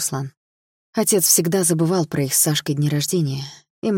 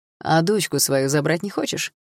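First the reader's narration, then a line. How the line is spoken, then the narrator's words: Mocking question. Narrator (Russian): насмешливо поинтересовался Руслан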